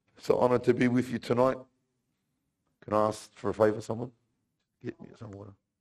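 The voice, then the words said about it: Hoarse, strained voice. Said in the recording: “excuse my throat, please. I was whispering all weekend. That's why I lost my voice.”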